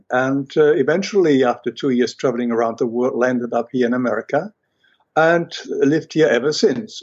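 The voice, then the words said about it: German accent. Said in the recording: “as you can hear from my accent, I was born in Germany”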